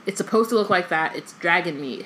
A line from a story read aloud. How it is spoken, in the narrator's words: Hagrid said